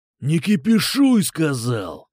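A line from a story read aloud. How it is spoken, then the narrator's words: Growled. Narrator (Russian): рыкнул Кукуша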